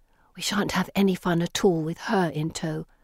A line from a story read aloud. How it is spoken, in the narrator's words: Felicity whispers bitterly